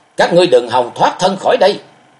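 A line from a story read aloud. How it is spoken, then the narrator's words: Enraged roar. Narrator (Vietnamese): Máu nóng trong người sôi lên, Thạch Mộng gầm to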